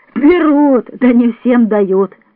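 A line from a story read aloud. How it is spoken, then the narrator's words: Laughing. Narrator (Russian): засмеялась она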